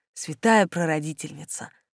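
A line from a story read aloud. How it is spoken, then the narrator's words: Whispered. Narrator (Russian): прошептала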